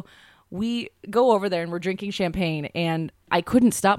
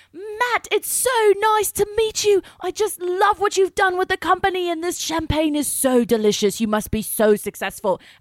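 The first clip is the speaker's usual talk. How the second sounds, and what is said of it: Put-on British accent. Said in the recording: “I started talking in a British accent, but I was also drunk.”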